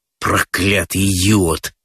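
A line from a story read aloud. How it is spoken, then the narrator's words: Grumbling through teeth. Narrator (Russian): ворчит сквозь зубы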